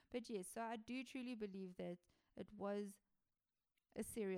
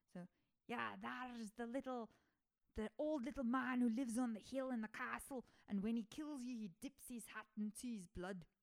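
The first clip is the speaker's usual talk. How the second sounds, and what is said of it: Rough attempt at Scottish accent. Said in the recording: “I'm trying to do a Scottish accent ... it kind of sounds like I am ... That wasn't too bad. I mean, it was kind of a butchery”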